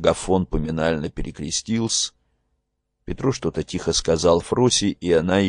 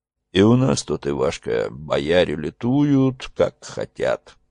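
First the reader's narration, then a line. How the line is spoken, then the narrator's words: Deep bass voice. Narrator (Russian): сказал Петро густым своим басом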